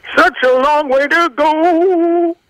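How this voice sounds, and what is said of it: Sung impression of another singer. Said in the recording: “I'm doing Michael McDonald impersonation from Ride Like the Wind”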